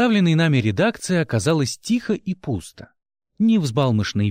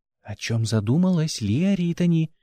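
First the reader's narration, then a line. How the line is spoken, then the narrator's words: Whisper in ear. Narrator (Russian): шепнул на ухо Гил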